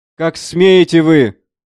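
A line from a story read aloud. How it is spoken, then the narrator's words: Shouting with full force. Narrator (Russian): закричал я, что было силы на них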